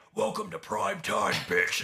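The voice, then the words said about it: Very deep menacing character voice. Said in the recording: “my uh, Freddy Krueger impersonation ... that's the deepest you'll ever hear my voice go”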